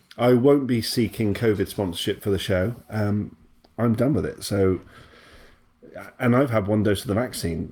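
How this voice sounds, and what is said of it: Voice slightly different from usual. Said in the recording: “you might hear my voice is a little bit different because of that”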